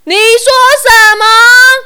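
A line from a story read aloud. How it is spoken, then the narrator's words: Puzzled shout. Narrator (Chinese): 店员一副疑惑的表情，又大吼一声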